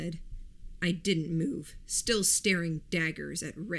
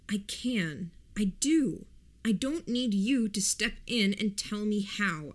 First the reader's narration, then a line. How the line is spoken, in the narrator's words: said, my voice tight